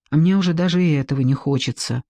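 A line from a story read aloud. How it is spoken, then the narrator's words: Sigh. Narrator (Russian): вздохнула Эстер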